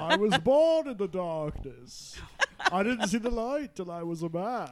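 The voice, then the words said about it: Tom Hardy's Bane accent impression. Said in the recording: “The father from Fiddler on the Roof... sounds exactly like Tom Hardy's accent as... Bane.”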